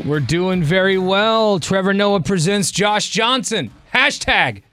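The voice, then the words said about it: Excited yelling. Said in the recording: “I don't know why I'm yelling. I'm just excited about it”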